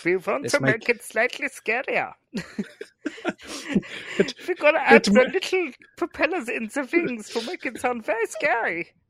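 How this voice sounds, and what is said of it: Put-on German accent. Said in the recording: “I love your German accent.”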